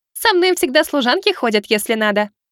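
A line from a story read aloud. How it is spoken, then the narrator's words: Giggling. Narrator (Russian): хихикнула Миваки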